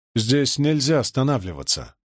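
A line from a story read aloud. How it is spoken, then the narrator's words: Gloomy. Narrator (Russian): мрачно ответил я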